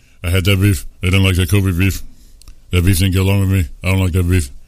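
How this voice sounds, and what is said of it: Imitates another person's voice. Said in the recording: “great Shaq impression ... It was a good one ... I got to put my lip out a little more”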